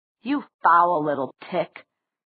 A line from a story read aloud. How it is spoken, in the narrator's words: Sebastian snarled